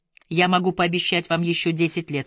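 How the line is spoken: Plain. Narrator (Russian): сказал хирург

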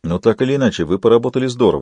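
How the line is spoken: Plain. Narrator (Russian): сказал он

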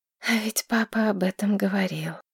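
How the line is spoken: Sigh. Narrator (Russian): вздохнула Маргарет

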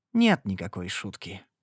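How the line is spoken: Gloomy reply. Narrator (Russian): мрачно ответила я

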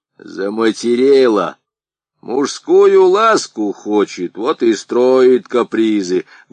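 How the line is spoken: Announced while chewing loudly. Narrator (Russian): громко чавкая объявил Харлампий

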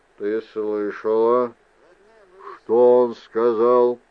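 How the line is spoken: Grumbling. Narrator (Russian): проворчал Мендер

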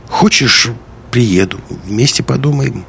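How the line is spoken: Hesitant offer after pause. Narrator (Russian): Помолчав немного, Лиска неуверенно предложила

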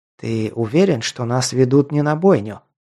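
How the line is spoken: Skeptical whisper. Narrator (Russian): прошептал у самого уха Ал, как всегда, от него сквозил скепсис и недоверие

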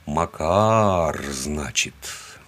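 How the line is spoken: Drawl. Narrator (Russian): протянул я

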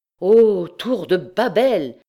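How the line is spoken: Exclaimed. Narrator (French): s'écria-t-il

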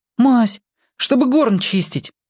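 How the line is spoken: Hurried explanation. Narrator (Russian): торопливо объясняет он

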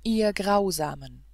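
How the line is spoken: Crying out in tears. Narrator (German): rief er, und Tränen stürzten aus seinen Augen

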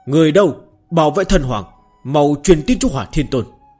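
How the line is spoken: Alarmed loud shout. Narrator (Vietnamese): sắc mặt lập tức tái nhợt, cao giọng quát

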